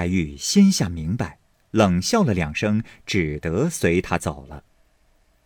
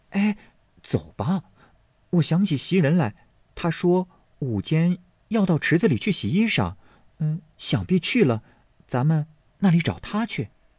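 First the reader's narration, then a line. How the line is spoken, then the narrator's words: Hurried, diverting. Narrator (Chinese): 怕她言语之中取笑，便忙拉过她来道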